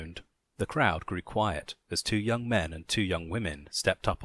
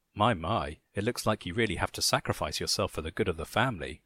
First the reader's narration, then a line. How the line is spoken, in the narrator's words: Lisa whispered to me with a giggle